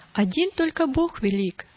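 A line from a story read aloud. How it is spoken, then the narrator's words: Exclaimed. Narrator (Russian): воскликнул он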